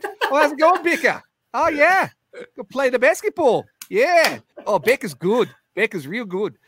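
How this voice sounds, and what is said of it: Put-on New Zealand accent. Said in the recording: “That's in a New Zealand accent.”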